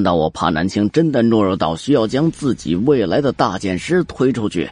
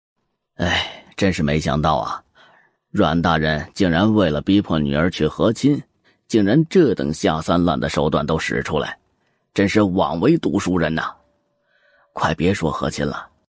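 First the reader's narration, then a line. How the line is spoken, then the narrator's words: Sighing lament. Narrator (Chinese): 他还感叹道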